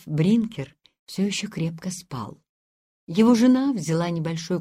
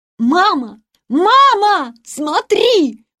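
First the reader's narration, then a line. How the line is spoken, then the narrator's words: Shouting at top of voice. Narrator (Russian): во все горло крикнул Ханс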